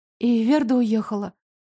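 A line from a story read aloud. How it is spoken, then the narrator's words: Dejected question. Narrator (Russian): упавшим голосом спросила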